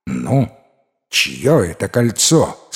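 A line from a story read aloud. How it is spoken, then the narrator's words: Stern ruler asking. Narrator (Russian): строго спросил повелитель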